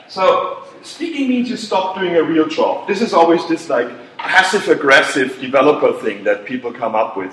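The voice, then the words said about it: German-accented English. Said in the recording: “terrible German accent”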